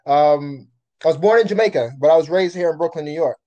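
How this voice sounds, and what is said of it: Jamaican-Brooklyn accent. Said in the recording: “like you have an accent ... my family is Jamaican. So that's my accent right there.”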